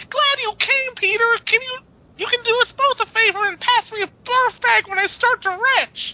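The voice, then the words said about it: Impression of Betty. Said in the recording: “I wish we had a. Uh, Bertoni here to do his impression, so I'm going to try just for try. So, um, Bertoni, if you listen, my apologies.”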